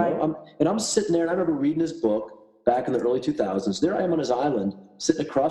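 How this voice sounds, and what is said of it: Usual voice. Nothing is said of it.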